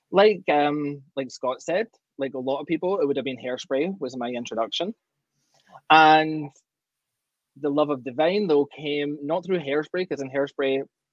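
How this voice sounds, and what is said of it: Scottish Glasgow accent. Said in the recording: “that accent is not quite Canadian. ... I'm originally from Glasgow, Scotland”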